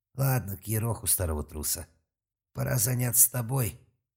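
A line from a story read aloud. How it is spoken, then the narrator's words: Grim grin. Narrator (Russian): мрачно склабился Гарен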